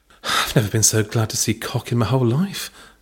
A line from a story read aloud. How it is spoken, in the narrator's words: Belinda breathed under her tongue